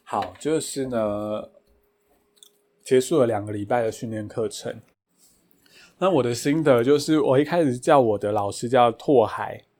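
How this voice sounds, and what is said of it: Deliberately quiet, soft speaking voice. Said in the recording (Chinese): “喉咙有点干 ... 我已经刻意比较小声讲话了”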